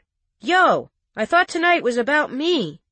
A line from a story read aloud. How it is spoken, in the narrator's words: Trent hollered from across the room